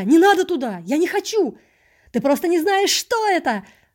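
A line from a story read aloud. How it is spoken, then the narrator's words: Several joyful voices shouting. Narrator (Russian): крикнуло сразу несколько радостных голосов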